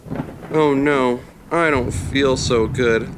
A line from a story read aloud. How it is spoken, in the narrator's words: Levi muttered to himself